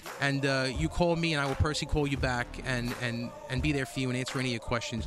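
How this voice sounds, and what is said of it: Brooklyn / Long Island New York accent. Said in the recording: “where's that accent from? ... He's a Brooklyn guy. ... Brooklyn, yeah. Long Island. ... He makes me sound like I'm from North Dakota with that accent.”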